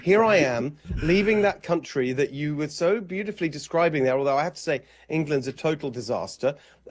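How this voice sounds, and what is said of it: British accent. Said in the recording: “I still have the accent”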